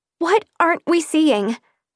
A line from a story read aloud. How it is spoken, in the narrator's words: Elizabeth asked desperately